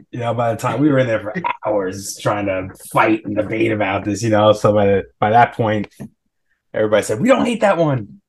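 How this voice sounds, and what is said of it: New York accent. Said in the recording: “I totally heard the New York come out in your voice ... he's got that accent going right now ... that's very New York”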